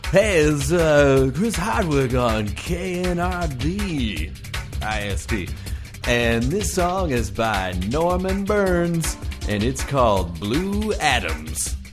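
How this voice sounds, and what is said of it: Funny radio DJ voice. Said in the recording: “should I do this like radio style? ... doing a funny voice”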